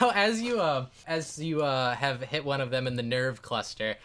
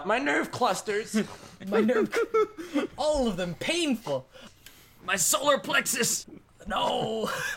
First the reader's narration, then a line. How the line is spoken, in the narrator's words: He just screams out